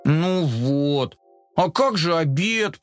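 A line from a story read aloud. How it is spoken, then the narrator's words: Moaning. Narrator (Russian): простонал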